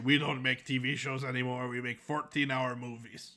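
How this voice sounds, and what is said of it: Watto impression. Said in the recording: “doing a Watto impression”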